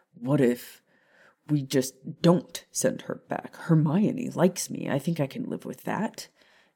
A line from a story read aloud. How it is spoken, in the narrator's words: Sirius muttered, anxiously, his heart racing